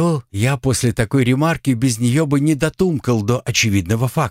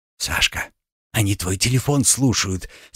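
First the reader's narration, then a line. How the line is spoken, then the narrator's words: Whisper. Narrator (Russian): сообщила Жанна, отчего-то шепотом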